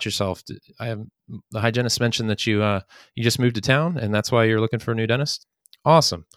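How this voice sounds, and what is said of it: Usual voice. Nothing is said of it.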